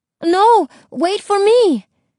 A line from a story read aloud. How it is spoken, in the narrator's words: Isabel yelled, spitting seawater